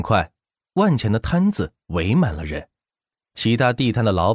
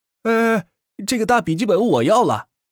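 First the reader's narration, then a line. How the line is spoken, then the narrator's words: Calling out. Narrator (Chinese): 一名学弟喊道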